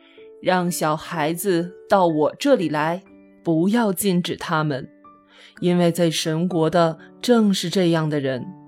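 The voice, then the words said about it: Very gentle yet powerful voice. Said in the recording (Chinese): “一个极其温柔又非常有力的声音”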